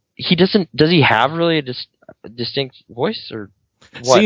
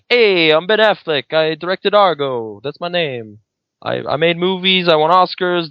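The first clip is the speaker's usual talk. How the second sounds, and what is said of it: Ben Affleck impression. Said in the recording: “do an impersonation of Ben Affleck”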